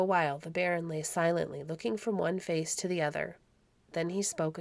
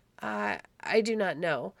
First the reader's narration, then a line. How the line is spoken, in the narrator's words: stammered poor Hans